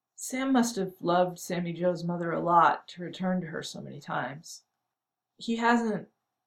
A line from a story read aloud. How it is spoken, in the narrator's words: When she could speak, she said miserably